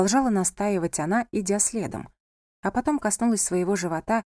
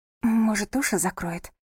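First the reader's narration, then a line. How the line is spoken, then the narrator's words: Whisper. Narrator (Russian): прошептала она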